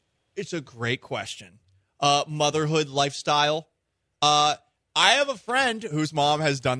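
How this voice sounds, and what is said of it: Usual voice. Nothing is said of it.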